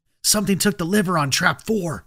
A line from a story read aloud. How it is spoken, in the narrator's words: I whispered, trying to hide my excitement and fear